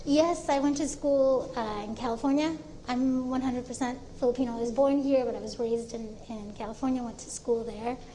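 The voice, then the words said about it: American accent. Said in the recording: “Have a very American accent?”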